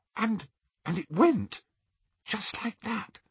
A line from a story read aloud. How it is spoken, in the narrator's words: she whispered